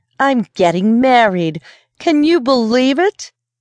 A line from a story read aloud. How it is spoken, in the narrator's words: she exclaimed